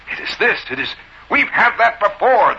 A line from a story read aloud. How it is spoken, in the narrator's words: the bellman indignantly said